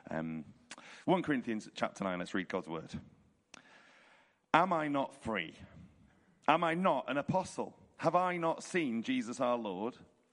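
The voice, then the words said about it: Hoarse, croaky voice. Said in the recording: “my voice is quite hoarse this evening because I was preaching and leading the music this morning, and so I oversang, I think, so apologies for the croaky tones”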